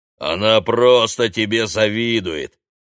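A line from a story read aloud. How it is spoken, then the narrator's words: Booming drone. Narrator (Russian): прогудел голос оператора Прохора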